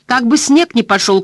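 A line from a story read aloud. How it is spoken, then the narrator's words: Shout. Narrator (Russian): крикнул Гарп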